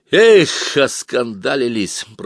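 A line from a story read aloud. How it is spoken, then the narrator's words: Grumbling. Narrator (Russian): проворчал барабанщик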